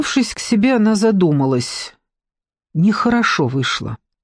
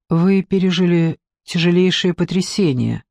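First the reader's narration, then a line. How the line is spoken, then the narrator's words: Gentle. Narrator (Russian): продолжала Лиза мягко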